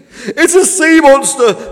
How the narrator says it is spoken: screamed Fish

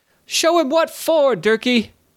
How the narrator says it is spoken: cried, putting on a brave face

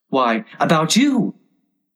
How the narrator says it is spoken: Tweedledee exclaimed, clapping his hands triumphantly

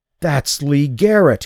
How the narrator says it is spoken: gasped

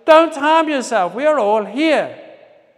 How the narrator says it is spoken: But Paul shouted

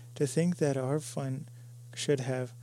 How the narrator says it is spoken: sighed Peggy

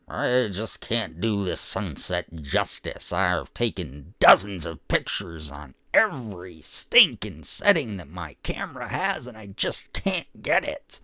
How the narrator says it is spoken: someone outside grumbling

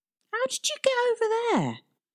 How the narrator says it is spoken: Tristan called out on the other side of the invisible barrier

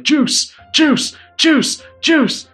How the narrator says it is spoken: A couple of people are shouting like

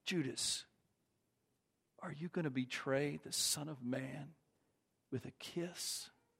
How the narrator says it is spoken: Jesus whispers in his ear

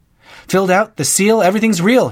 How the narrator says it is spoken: he exclaimed

